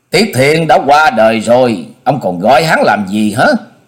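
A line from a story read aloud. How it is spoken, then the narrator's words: Smiling monk. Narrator (Vietnamese): Hòa thượng áo trắng mỉm cười nói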